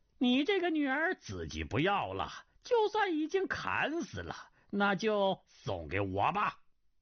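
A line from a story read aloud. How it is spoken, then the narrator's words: Laughing. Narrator (Chinese): 云中鹤笑道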